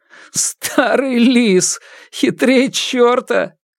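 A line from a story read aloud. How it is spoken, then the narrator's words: Giggling. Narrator (Russian): Братец Хук хихикая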